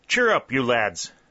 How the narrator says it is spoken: cried Colonel Talbot

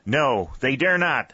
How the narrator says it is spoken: shouted St

